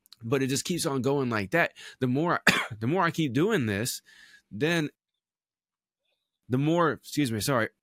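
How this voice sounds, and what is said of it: Choked-up voice, sore throat. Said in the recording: “Sorry, I'm getting choked up ... I woke up with a little bit of a sore throat this morning.”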